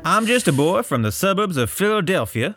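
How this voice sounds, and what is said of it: Put-on Delaware accent. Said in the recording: “Put on your Delaware accent.”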